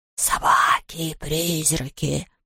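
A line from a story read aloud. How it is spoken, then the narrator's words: Whispered. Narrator (Russian): прошептал Хуга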